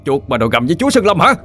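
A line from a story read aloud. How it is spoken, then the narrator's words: Roared. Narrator (Vietnamese): tôi giật tấm khăn che mũi gầm lên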